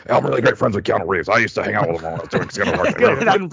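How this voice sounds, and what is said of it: Gruff Alex Jones impression. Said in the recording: “That's a great impression... it's easier to do his impression now than if you listen to like his older... he's kind of more like a higher pitched and like less gruff... the current iteration of Alex Jones”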